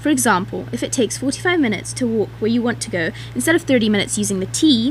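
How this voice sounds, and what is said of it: British accent. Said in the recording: “her lovely British accent”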